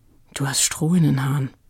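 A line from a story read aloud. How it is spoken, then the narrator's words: Murmuring. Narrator (German): raunte Frieda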